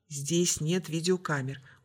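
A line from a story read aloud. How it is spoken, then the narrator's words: Very quiet. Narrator (Russian): очень тихо ответила Сандра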